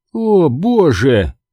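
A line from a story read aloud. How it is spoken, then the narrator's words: Drawled. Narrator (Russian): протянула она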